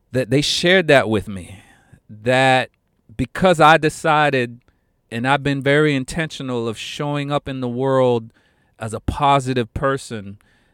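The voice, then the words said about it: Emotional, choked-up voice. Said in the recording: “I got very emotional, and I'm sorry, I'm getting a little emotional right now”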